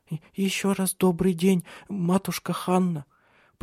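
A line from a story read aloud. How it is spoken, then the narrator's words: Stammering, trembling. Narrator (Russian): произнесла она, запинаясь и дрожа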